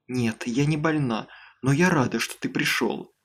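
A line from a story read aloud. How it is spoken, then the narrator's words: Whisper. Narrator (Russian): шепнула она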